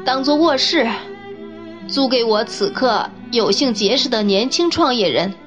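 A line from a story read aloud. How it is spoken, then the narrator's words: Smiling, bold. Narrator (Chinese): 那陌生人笑了笑，迸发出勇气说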